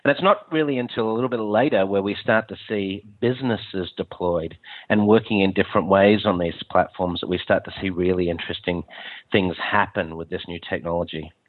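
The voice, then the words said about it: Slightly strange, stuffy-sounding voice. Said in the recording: “I've got a little bit of a cold, so if I sound a bit strange, that is why.”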